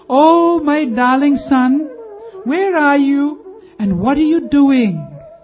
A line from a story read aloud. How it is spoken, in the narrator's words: she called out